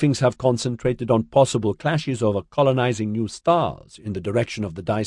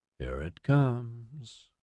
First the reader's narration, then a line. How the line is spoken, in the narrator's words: Campbell murmured to Justine